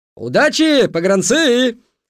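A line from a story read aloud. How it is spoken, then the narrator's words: Shouted from platform. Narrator (Russian): закричал с перона Петрайх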